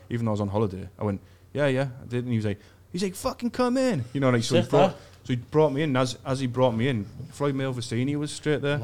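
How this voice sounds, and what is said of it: English accent. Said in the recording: “Where's your accent from?" I was like, "England."”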